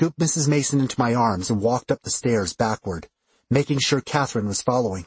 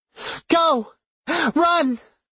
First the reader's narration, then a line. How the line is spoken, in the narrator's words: pleaded